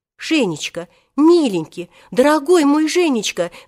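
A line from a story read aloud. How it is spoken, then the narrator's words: Babbling into phone. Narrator (Russian): залепетала тогда Татьяна Ивановна в трубку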